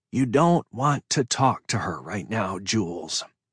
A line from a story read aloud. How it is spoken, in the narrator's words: she said quietly